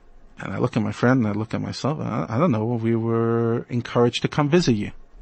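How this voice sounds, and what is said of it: Usual voice. Nothing is said of it.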